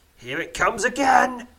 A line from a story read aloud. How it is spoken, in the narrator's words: snarls Zurum